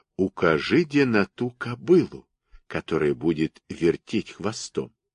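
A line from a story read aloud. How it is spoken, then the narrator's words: Secretive whisper. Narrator (Russian): Кузя как-то тихомолком шепнул ему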